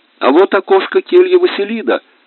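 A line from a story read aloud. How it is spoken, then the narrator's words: Exclaiming. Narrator (Russian): воскликнул Федя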